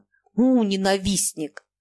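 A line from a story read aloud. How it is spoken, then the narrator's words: Laughing. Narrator (Russian): Фома засмеялся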